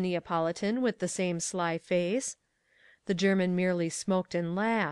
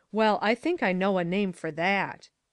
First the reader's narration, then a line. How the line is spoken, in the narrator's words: cried the German